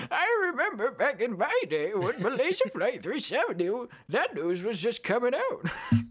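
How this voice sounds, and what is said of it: Old man voice. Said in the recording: “Just straight up old man voice.”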